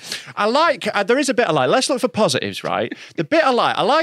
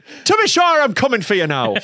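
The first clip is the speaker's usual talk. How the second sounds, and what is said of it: Put-on Irish accent. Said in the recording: “the Irish remake ... it's not a scary accent”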